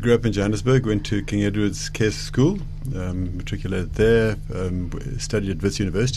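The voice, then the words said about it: South African Johannesburg accent. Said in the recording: “You seem to have a bit of an accent. ... born in South Africa ... Maybe the Joburg accent.”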